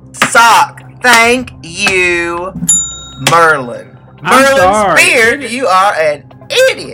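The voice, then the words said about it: Yelling, berating. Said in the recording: “do you like how I'm berating Kendall? I'm yelling at him in the face”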